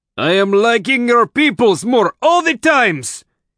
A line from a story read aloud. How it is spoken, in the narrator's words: he bellowed over the noise